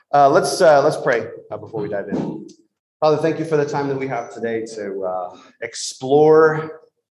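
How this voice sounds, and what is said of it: Slightly hoarse, tired voice. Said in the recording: “recovering also from a little bit of a head cold. So my voice is a little, I don't know, we'll see how tired I get”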